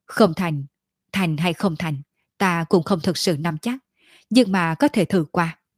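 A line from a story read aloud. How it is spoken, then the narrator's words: Lowered voice. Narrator (Vietnamese): Hắn hạ giọng nói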